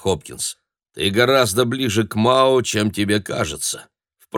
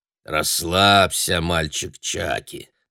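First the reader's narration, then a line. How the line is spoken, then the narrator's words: Grumbling. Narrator (Russian): проворчал Хопкинс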